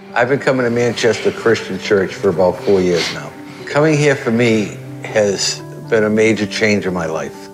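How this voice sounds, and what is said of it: Northeastern US accent. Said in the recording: “He's got a northeastern accent”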